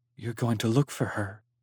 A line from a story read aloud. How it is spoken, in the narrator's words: whispered